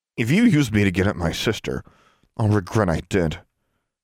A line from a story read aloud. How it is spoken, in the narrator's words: Alexandra said